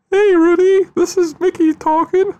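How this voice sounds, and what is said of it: Mickey Mouse cartoon voice. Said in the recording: “here's my Mickey Mouse”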